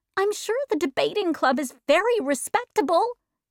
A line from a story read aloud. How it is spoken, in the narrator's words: she pleaded